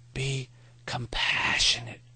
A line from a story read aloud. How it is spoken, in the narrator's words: Maury whispered